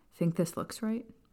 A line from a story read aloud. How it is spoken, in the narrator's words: Lily asked, nervously